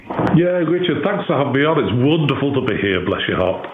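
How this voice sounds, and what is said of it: English accent. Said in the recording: “I'm detecting an English accent”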